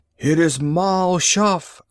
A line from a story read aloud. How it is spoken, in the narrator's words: cried one